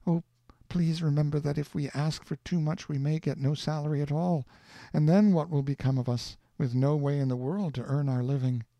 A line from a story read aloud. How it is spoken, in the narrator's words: She kept pleading with me and saying